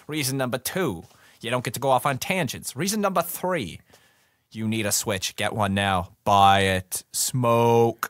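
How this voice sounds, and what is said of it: Brooklyn accent. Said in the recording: “a cool Brooklyn accent like me”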